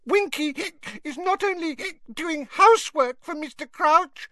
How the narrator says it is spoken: Winky squeaked indignantly

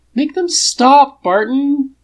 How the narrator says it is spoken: Tony whines from beneath Whatsit's clinging silicon limbs

